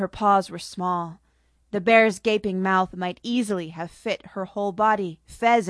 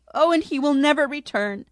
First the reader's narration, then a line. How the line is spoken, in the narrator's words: the Cheshire Monkey sobbed